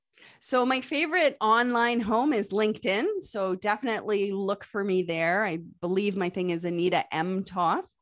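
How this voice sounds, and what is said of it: Light Canadian English accent. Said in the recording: “Yes, I am Canadian. You probably heard it in my accent a couple of times.”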